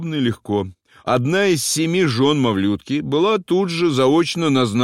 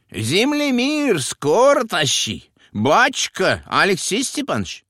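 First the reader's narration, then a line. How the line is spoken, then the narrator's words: Shrill squealing voice. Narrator (Russian): говорил визгливым голосом Мавлютка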